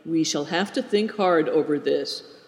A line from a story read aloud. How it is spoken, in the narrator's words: said quietly